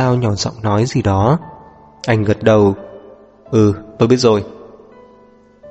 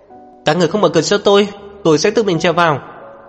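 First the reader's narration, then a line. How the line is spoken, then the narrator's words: Shouting while climbing. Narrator (Vietnamese): vừa trèo vừa hét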